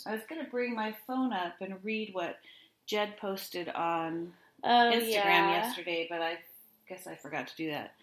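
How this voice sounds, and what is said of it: Sick-sounding voice. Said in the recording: “I'm sick too, so forgive my voice”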